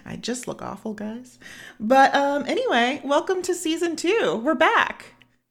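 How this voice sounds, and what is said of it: Hoarse voice, losing voice from cold. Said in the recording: “I have like a little bit of a cold and I'm kind of losing my voice, as you guys will notice.”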